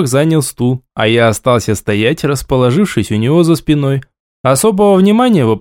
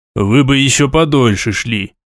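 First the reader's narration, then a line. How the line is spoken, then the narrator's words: Grumbled. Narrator (Russian): проворчал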